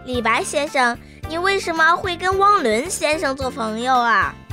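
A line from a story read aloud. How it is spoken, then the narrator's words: Sudden loud question. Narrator (Chinese): 童童突然开口大声地问道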